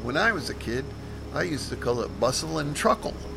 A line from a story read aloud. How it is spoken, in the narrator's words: I gave a chuckle and mentioned